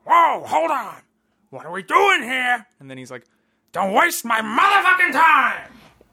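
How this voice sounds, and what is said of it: Very loud shouted impression. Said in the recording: “my Al Pacino impression in Heat ... that was the loudest thing I've ever heard in my entire life”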